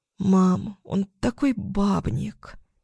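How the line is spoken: Exhaled. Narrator (Russian): Выдохнула я

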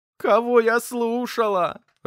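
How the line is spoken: Sobbing into pillow. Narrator (Russian): рыдала она в подушку

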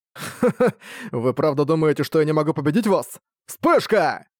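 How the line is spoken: Mocking snort. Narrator (Russian): фыркнул Арк

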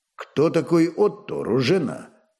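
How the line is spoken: Stern question. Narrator (Russian): строго спросил Вольфганг

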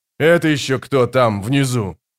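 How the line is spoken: Menacing question. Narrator (Russian): грозно спросил герцог

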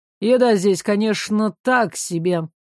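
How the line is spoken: Grumbling. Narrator (Russian): ворчал Тьял

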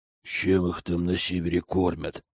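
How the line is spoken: Soldiers grumbling. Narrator (Russian): ворчали вояки

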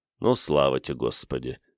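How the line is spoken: Snorting. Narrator (Russian): хмыкнул Игорь

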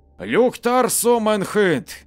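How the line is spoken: Loud shout in Swedish. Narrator (Russian): громко закричал на шведском языке

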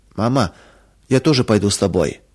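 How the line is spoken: Near-tearful whisper. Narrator (Russian): чуть не плача прошептала Маруся

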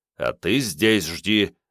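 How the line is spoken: Angry growl. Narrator (Russian): зло прорычал Старлей Снейку

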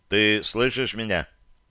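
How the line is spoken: Dry question. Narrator (Russian): Сухо спросил

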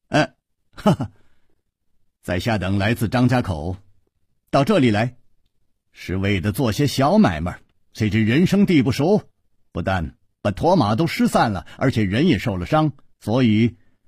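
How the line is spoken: Nonstop talking. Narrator (Chinese): 他不停地说

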